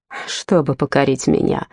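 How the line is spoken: Sighing. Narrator (Russian): вздохнула Елена

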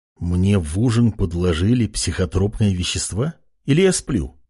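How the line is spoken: Young man muttering. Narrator (Russian): пробормотал парень

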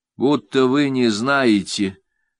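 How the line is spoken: Gloomy. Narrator (Russian): мрачно говорит Ленка

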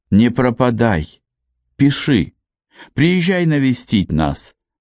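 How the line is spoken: Sobbing. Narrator (Russian): всхлипывала

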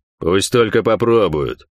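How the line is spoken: Growled. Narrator (Russian): прорычал Пень

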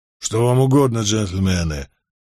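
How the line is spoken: Low muffled voice. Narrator (Russian): осведомился он глуховатым низким голосом

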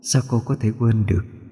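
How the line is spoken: Resentful, choked voice. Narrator (Vietnamese): Giọng nói ấy chứa đầy oán hận, xen lẫn nghẹn ngào

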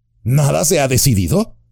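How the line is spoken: Exclaimed. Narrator (Spanish): exclamó Pippin

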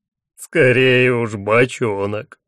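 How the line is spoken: Groan. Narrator (Russian): простонал Хатхас

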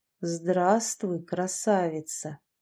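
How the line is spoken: Soft, eerily menacing voice. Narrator (Russian): произнес он мягким и до жути пугающим голосом

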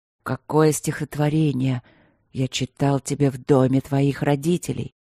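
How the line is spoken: Whisper against lips. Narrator (Russian): прошептал он ей в губы

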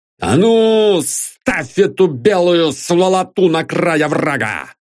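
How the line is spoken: Shout. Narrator (Russian): крикнул Ашихин

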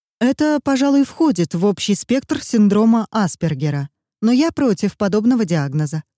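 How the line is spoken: Plain. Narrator (Russian): сказала она

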